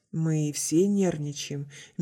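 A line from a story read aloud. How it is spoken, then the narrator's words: Soft. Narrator (Russian): мягко произнесла Наоми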